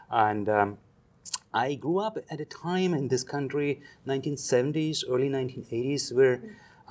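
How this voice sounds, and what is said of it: German accent. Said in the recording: “you hear from my accent, English is not my first language. I'm actually German.”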